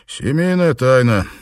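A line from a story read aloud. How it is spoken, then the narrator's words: Dry smirk. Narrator (Russian): сухо усмехнулся Данрос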